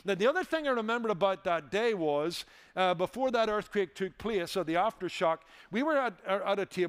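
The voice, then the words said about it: Irish accent. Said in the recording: “heard my accent ... are there automobiles in Ireland?”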